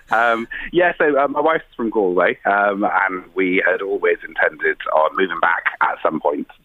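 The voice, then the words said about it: South Welsh accent. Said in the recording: “we discern from your accent you're from across the water ... I'm a South ... Wales ... boy”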